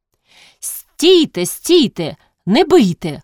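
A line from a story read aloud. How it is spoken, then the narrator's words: Someone shouting. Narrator (Ukrainian): хтось крикнув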